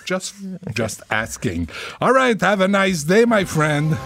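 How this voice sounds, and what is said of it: Québécois French accent in English. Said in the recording (French): “l'anglais de ... et ... est un peu discutable ... Un petit accent quand même”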